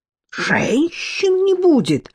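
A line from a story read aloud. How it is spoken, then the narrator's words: Frightened exclamation. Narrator (Russian): испугавшись на сей раз, по-настоящему воскликнул брат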